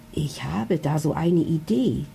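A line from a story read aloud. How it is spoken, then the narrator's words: Whispered into ear. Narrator (German): flüstert er ihr ins Ohr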